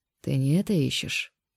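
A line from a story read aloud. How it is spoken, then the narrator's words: Lazy drawl. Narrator (Russian): Наконец лениво протянул Ян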